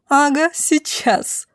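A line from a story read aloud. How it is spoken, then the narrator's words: Loud laughing woman. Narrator (Russian): захохотала в голос женщина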